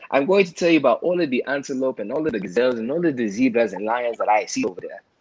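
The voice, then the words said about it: Thick put-on African accent. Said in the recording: “thick African accent”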